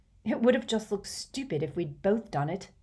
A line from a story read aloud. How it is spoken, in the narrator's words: said Harry irritably